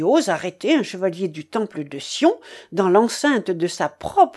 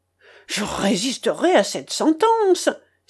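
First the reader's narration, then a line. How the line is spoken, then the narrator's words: Exclamation. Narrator (French): s'écria le grand maître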